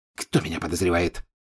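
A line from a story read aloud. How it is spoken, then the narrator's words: Angry question. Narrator (Russian): сердито спросил Малфой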